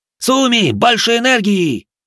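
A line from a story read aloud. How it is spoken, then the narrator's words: Roaring. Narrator (Russian): взревел Кеничи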